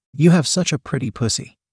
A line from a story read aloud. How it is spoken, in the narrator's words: she cooed softly